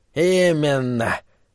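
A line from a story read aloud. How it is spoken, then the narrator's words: Menacing old man's laugh. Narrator (Russian): Старый Джоб грозно захохотал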